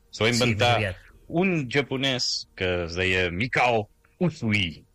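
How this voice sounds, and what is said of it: Put-on Japanese accent. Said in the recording (Catalan): “Dic així amb accent japonès.”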